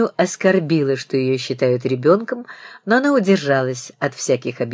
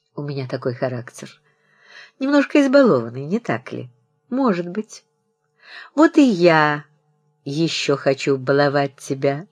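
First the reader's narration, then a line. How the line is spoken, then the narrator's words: Laughing. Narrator (Russian): засмеялся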